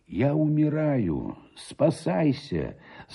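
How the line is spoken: Weak voice. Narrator (Russian): сказал он ему слабым голосом

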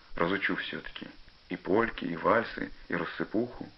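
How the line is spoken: Quiet, dreamy. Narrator (Russian): тихо, мечтательно сказал Пашка

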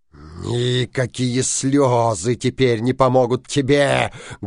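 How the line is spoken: Menacing. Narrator (Russian): грозно сказал синяя борода

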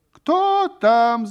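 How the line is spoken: Shouted question. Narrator (Russian): закричала кумова жена, услышав шум в сенях

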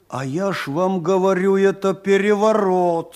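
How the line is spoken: Passionate shouting. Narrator (Russian): страстно кричал Осадчий

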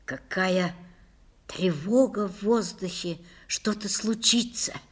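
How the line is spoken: Whisper. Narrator (Russian): прошептала Лиля

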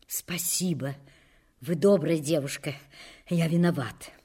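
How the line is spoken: Furtive agitated whisper. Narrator (Russian): все еще взволнованный украдкой шепнул

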